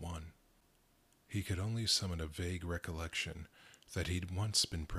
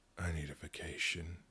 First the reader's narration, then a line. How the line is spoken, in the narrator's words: muttered